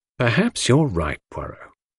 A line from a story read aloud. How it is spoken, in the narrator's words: I said gently